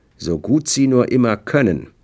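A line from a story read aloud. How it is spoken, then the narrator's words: Calm voice. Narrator (German): sagte mit ruhiger Stimme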